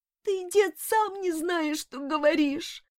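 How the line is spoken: Sobbing. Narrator (Russian): всхлипывая, приговаривал он

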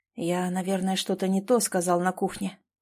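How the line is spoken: Muffled mumble. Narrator (Russian): пробормотал он Саше в волосы

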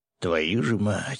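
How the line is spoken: Through gritted teeth. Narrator (Russian): сквозь зубы процедил мужчина

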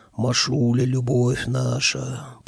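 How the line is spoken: Deep bass voice. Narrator (Russian): пробасила правая

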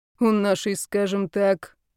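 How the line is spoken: Hesitant, measured snort. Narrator (Russian): хмыкнул он, явно взвешивая слова

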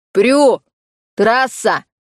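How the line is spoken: Shouted. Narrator (Russian): крикнул Коул

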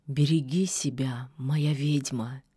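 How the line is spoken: Quiet. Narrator (Russian): тихо сказал он

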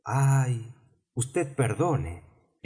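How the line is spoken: Hasty apologetic exclamation. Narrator (Spanish): exclamó precipitadamente Alicia, sintiendo haber molestado al pobre animalito

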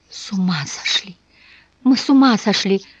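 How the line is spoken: Moan. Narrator (Russian): простонала она

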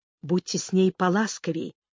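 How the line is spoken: Quiet menacing whisper. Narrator (Russian): прошептал тихо и едва ли не с угрозой

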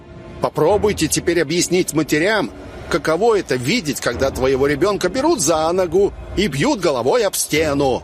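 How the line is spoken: Loud shout. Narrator (Russian): Я крикнул громко, чтоб услышали все

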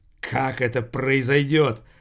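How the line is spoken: Hoarse wheeze. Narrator (Russian): прохрипел Градус

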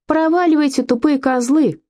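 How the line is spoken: Shout. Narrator (Russian): крикнул он

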